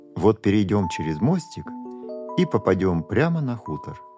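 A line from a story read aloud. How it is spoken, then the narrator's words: Plain. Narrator (Russian): сказал папа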